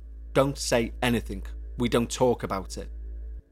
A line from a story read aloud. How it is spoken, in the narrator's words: My uncle very sternly said